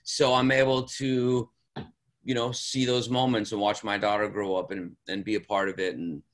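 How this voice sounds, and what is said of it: Smooth late-night FM DJ voice. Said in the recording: “You got a great voice for it, man. You got that nice, like, late night FM DJ voice going.”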